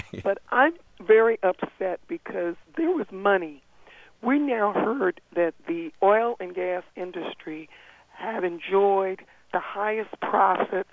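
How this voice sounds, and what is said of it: Hoarse voice from laryngitis. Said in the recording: “Forgive my laryngitis.”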